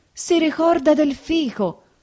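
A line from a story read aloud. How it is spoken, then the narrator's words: Stammering, sobbing hard. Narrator (Italian): balbettò Agenore singhiozzando più forte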